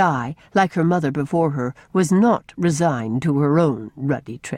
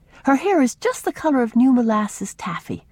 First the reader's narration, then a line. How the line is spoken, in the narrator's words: she added wistfully